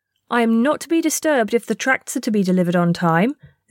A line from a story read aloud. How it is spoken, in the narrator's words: Zee said as haughtily as an elder